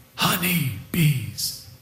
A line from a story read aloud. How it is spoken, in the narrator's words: he whispered